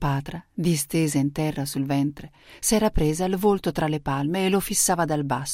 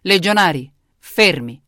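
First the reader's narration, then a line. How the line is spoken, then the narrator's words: Thundering command. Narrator (Italian): tuonò Cesare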